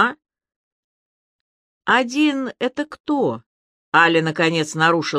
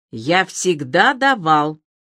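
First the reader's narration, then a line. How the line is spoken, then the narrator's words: Angry reply. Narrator (Russian): зло ответил он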